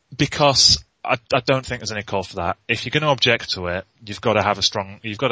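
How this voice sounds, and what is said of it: Usual voice. Nothing is said of it.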